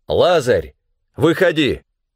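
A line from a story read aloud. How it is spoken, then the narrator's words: Loud exclamation. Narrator (Russian): воскликнул громким голосом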